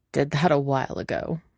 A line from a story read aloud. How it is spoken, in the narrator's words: Elliot says with a snort